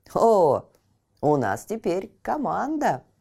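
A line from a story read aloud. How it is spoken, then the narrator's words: Exclamation. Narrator (Russian): воскликнул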